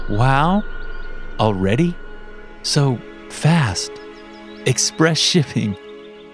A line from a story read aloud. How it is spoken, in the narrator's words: with a chuckle